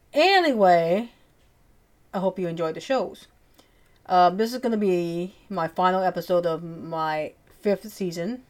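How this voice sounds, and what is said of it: Cajun accent. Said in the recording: “my Cajun accent”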